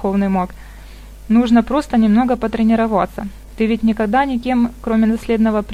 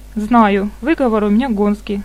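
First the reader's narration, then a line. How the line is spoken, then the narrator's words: Laughing. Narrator (Russian): засмеялся его спутник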